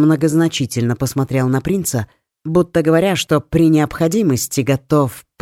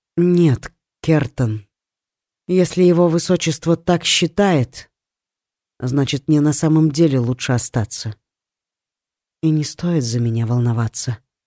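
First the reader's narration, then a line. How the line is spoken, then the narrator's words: Soft. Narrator (Russian): мягко добавила она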